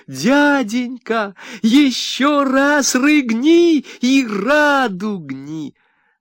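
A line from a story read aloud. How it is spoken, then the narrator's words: Children shrieking with delight. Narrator (Russian): Дети силача завизжали от восторга … закричали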